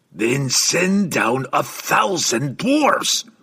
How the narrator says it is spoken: Brunner growled at him

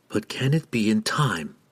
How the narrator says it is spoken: she asked softly and rhetorically, knowing that her whisper would break apart in the wind

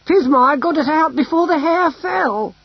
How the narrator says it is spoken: she cried

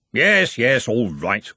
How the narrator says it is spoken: grumbled Ridcully

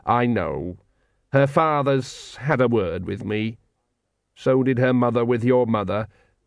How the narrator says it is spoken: said the dwarf coldly

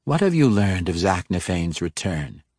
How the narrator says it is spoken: Ikardaria asked, her voice husky and suggestive, magically so

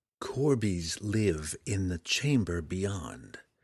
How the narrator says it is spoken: Drizzt began quietly, speaking each word slowly and distinctively

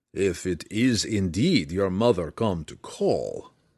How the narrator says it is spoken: Belwar growled

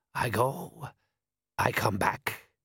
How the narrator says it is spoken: growled happily

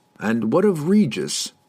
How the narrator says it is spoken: Drizzt asked Brunner

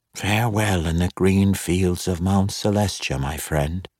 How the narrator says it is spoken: whispered

